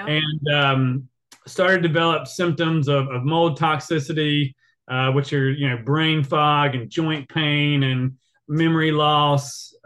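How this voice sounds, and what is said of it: Rural country accent. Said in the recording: “if you can hear my accent, I lived in the country.”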